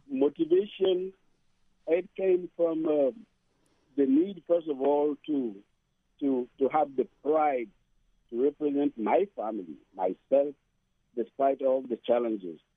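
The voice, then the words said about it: Strong African accent. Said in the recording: “I still speak with a very strong African accent.”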